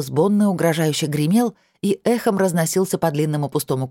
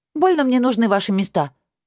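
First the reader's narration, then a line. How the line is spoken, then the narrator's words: Snapping retort. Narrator (Russian): огрызнулась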